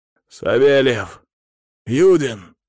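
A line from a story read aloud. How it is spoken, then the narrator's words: Hoarse shout. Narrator (Russian): крикнул я с хрипотцой в голосе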